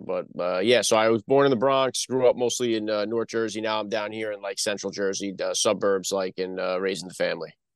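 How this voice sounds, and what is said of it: Northeastern American accent. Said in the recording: “he's saying New England ... a potpourri of the, you know, the Northeast accent”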